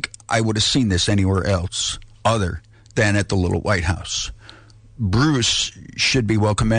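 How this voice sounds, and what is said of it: Usual voice. Nothing is said of it.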